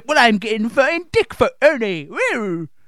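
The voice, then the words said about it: Put-on West Country accent. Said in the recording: “That was my West Country accent”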